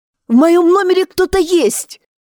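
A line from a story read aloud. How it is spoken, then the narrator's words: Screaming. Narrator (Russian): закричала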